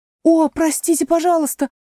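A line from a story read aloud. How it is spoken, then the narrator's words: Shouted. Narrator (Russian): закричала Алиса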